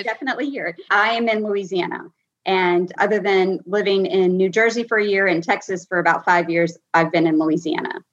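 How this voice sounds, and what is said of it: Regional Louisiana accent. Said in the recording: “what's your accent from?”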